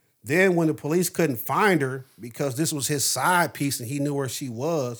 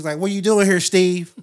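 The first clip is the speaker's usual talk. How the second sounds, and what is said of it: Put-on white girl voice. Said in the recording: “Your white girl voice is kind of weird.”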